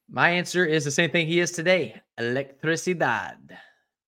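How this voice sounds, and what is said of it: Terrible put-on foreign accent. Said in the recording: “terrible accent ... That's pretty bad. That's pretty bad.”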